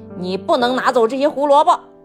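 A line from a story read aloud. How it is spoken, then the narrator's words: Loud shout. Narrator (Chinese): 他大声喊道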